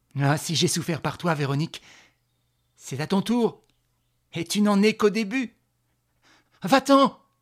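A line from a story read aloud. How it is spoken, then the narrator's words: Shouting. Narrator (French): cria Véronique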